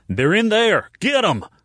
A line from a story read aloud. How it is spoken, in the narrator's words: a male voice shouted